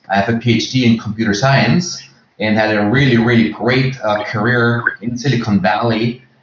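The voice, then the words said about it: Slight Austrian accent. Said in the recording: “you might detect a little accent in my voice. I'm Austrian”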